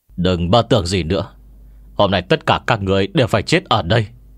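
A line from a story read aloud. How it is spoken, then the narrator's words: Fierce, cold. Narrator (Vietnamese): Thích La vẻ mặt dữ tợn, lạnh lùng nói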